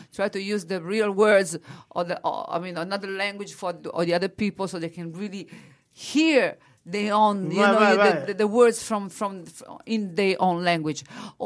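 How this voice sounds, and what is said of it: Strong Italian accent. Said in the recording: “I'm keeping my own accent ... I have a strong accent ... I'm an Italian singer”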